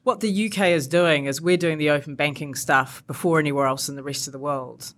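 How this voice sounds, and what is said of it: Non-British accent. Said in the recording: “evidently from my accent, I wasn't brought up here”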